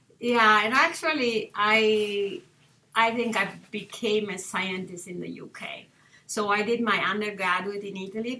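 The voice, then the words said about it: Italian accent. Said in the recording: “you grew up in Italy. Our listeners might have suspected that from your accent”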